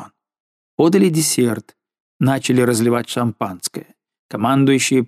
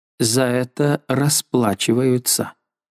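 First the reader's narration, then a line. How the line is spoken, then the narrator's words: Muttered. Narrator (Russian): она пробормотала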